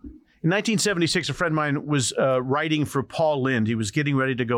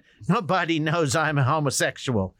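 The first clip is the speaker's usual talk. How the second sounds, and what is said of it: Paul Lynde impression. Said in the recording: “I'll do the worst Paul impression ... was that a pretty good impression?”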